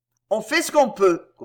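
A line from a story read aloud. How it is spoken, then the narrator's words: Grumbled. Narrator (French): grogna Suzon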